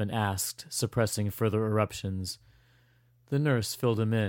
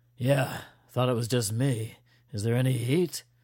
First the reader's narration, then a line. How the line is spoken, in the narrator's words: The recruit chuckled